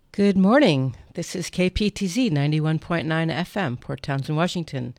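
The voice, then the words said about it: Voice slightly altered, recovering from cold. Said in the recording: “I've just got over a cold, so my voice is a little different”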